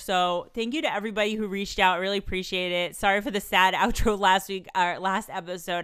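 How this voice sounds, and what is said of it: Congested, slightly sick voice. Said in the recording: “I'm still sick. I'm still a bit congested. You could probably hear my voice is not 100% back”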